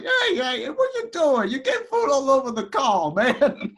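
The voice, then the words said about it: Imitated voice of game character. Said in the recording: “I don't mean to do it in a voice like I'm sorry, I don't mean to do that. I was just imitating.”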